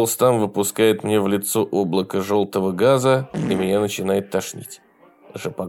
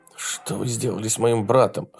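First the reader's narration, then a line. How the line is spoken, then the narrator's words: Hoarse. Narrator (Russian): хриплю я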